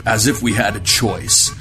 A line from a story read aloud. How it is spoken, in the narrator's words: Wu grumbled